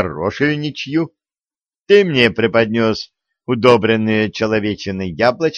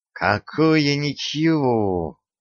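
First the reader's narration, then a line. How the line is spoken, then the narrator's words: Hissing. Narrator (Russian): прошипел Васька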